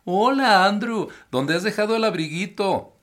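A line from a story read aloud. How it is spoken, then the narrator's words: Mock shrill pompous shout. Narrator (Spanish): gritó Michael tratando de poner una voz tan aflautada y pomposa como la de la señorita Alondra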